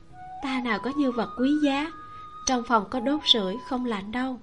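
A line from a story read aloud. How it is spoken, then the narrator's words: Soft laugh. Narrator (Vietnamese): Nhiễm Nhan khẽ cười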